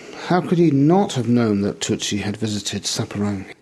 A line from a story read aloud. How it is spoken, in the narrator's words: He exclaimed, with more feeling than I had yet seen him exhibit